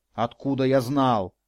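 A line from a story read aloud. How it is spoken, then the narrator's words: Irritated mocking mimicry. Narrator (Russian): раздраженно передразнил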